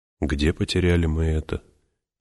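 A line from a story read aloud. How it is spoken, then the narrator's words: Muttering. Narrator (Russian): пробормотал он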